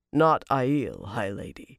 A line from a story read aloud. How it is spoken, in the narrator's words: said calmly